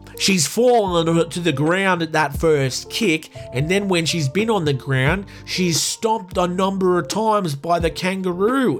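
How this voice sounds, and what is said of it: Put-on regional accent. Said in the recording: “I'm going to do an accent here because it's like my country”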